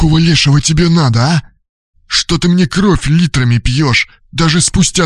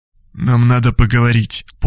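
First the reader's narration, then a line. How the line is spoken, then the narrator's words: Half-choked voice. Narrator (Russian): полузадушенным голосом ответил бывший супруг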